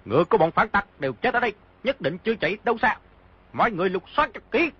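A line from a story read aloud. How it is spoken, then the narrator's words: Shout. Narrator (Vietnamese): một người quát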